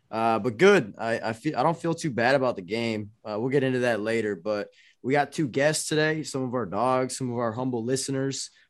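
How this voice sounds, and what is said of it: Hoarse, strained voice. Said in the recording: “My voice is still fucked up from this weekend. I did a lot of yelling and shit in the bars.”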